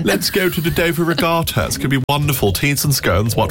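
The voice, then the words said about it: Mock posh English accent. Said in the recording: “You're posh, my friend. ... A posh”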